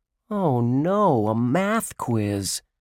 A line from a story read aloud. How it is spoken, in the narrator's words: Josh groaned